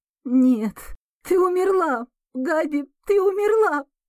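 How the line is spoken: Sobbing. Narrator (Russian): Рыдания вырываются из груди

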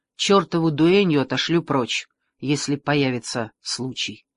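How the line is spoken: Plain. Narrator (Russian): сказал король

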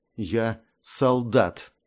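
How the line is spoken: Through gritted teeth. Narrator (Russian): процедила сквозь зубы Вайпер

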